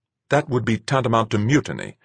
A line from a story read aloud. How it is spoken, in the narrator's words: she snapped